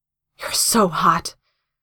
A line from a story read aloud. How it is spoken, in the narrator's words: he gasps